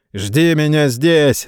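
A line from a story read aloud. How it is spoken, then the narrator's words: Mocking shout. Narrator (Russian): насмешливо крикнул сэр Роже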